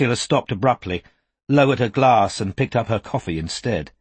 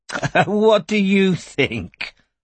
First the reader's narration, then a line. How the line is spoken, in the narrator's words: laughed Ursula, as though the question was too naive for words